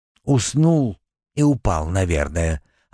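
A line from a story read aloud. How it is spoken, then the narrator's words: Plain. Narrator (Russian): ответил второй голос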